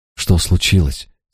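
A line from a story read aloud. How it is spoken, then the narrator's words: Quiet question. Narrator (Russian): спросила она негромко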